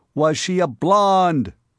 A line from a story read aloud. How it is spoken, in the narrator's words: yelled Mifflin